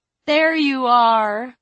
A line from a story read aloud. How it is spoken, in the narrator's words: The one who said she was Aunt Jet cried cheerfully